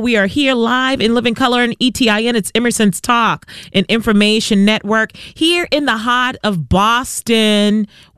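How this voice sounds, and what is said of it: Strong Boston accent. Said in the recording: “Sometimes it comes out very strong. ... that is a true Bostonian accent for you right there. ... Only Bostonians talk like that.”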